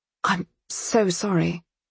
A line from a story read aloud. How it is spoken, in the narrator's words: she faltered